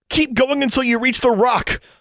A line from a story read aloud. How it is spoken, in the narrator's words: she shouted